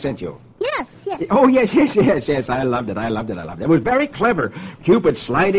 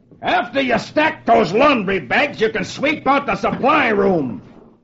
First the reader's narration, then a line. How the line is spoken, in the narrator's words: One of his officers shouts at him